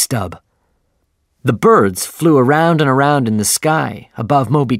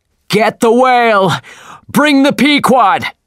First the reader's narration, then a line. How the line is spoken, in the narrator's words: shouted Captain Ahab